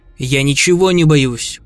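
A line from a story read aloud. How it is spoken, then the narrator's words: Cold reply. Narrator (Russian): холодно ответил заключенный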